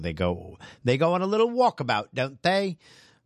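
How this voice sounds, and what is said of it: Brief put-on Cockney accent. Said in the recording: “I think I just threw a Cockney accent in there”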